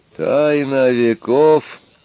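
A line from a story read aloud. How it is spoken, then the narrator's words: Strangely thin questioning voice. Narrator (Russian): переспросил затворник странно тонким голосом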